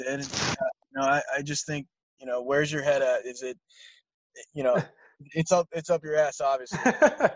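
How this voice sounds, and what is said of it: Stuttering, frustrated speech. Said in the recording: “I'm stuttering on my words. That's how frustrated I get”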